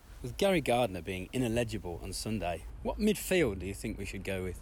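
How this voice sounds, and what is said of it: Polished radio announcer voice. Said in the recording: “Love the radio voice there. Bit of a Ron Burgundy.”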